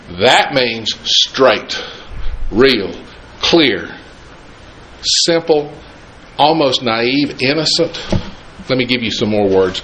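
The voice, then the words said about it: Southern American accent. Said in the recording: “I've still got my southern accent.”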